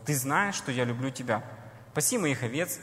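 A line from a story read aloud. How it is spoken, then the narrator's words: Plain. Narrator (Russian): говорит Иисус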